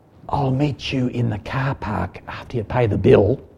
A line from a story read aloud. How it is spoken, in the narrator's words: whispering to my husband